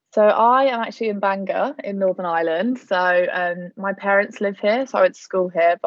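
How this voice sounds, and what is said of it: English accent, not Northern Irish. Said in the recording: “I don't have the lovely accent like everyone else ... Could not be more English if I tried”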